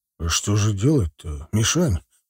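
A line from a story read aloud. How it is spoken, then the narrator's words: Deep bass voice. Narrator (Russian): пробасил сержант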